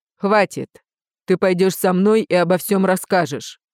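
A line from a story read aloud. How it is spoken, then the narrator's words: Barked. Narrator (Russian): рявкнул Риан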